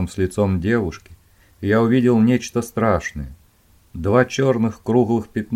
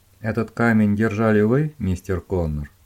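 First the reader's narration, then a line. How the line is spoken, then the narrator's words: Calm question. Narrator (Russian): спокойно спросила Дженни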